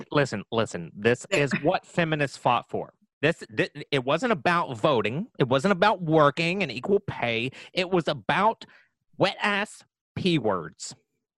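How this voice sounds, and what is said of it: Imitates another person's voice. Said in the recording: “I'm having a really hard time reading this without imitating.”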